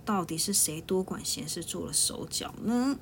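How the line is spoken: Two people muttering. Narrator (Chinese): 二秀两个人嘟嘟囔囔的说

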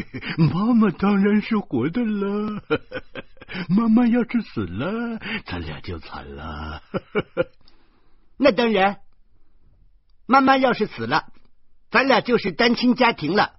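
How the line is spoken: Laughing. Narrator (Chinese): 徐大光笑着说

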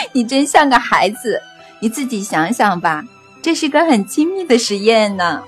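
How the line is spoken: Laughing answer. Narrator (Chinese): 安娜斯塔夏大笑起来，边笑边回答

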